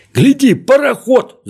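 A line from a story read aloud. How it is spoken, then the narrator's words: Shouted. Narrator (Russian): закричал козлик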